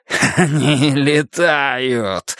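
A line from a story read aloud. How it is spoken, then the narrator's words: Growling. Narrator (Russian): рычало оно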